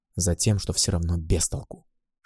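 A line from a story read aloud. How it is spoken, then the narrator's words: Whispered reply. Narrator (Russian): шепнул я в ответ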